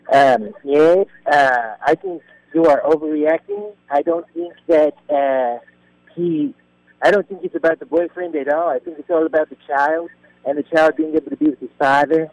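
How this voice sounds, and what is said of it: Fake put-on 'Sherman' voice. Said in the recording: “did it in a fake voice ... You're doing it in like a Sherman voice ... Yeah, Sherman voice.”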